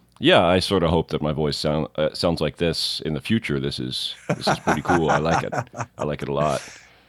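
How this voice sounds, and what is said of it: Sick, husky, sultry-sounding voice. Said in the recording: “as you can probably tell from my voice, are millions and millions of coronaviruses ... a very sultry version of”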